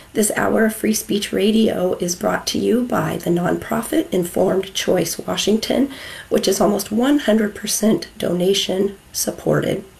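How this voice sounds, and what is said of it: Strained, unwell voice. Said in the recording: “pardon my voice. It's not the best ever”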